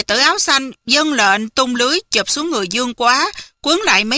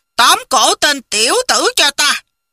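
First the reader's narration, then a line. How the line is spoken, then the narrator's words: Barked command. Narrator (Vietnamese): Công Tôn Cốc Chủ quát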